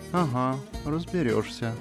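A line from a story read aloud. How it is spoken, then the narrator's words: Goddess speaking softly. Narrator (Russian): тихонько сказала богиня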